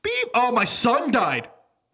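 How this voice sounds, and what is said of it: Comic voice of God. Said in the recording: “I'm God in this impersonation.”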